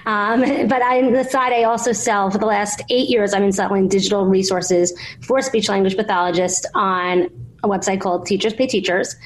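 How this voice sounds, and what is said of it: Thick New York accent. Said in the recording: “if you can't tell from my thick New York accent.”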